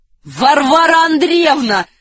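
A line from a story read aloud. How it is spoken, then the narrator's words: Shouted. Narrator (Russian): закричал Ахиллес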